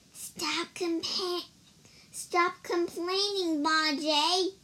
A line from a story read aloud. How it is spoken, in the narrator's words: whispered Wukong